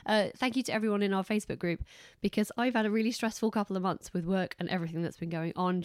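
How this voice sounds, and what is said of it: Congested, hoarse, fading voice. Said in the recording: “I'm stuffed up and I'm losing my voice”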